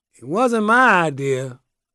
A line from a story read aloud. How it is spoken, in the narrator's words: he slurred